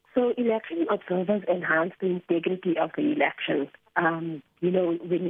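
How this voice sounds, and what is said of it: Voice affected by a cold. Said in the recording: “sorry about my voice. I have a bit of a cold.”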